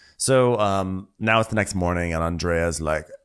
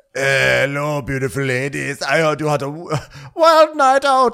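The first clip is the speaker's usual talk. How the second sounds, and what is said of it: Put-on accent for a character. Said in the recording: “I don't know what accent I'm doing for him today.”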